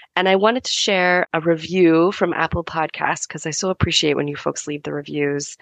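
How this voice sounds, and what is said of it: Sick, slightly off voice. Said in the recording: “as you can hear, I'm a little bit sick... My voice is a little bit off.”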